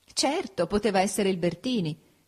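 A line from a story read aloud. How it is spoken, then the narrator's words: Laughing. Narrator (Italian): disse Ada ridendo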